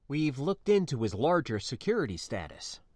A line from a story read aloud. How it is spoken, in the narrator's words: I replied, now in a hushed tone due to our relative proximity to the subject of our conversation